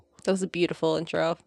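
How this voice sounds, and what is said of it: Sarcastic tone. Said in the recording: “You're being sarcastic.”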